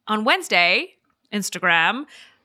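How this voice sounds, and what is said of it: Put-on official corporate voice. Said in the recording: “I don't know why I put on that voice. That's what I think the official Instagram voice sounds like”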